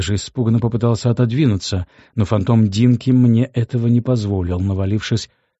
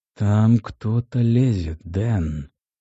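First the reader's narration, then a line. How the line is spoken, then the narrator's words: Desperate whisper inside head. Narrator (Russian): услышал я отчаянный шепот у себя в голове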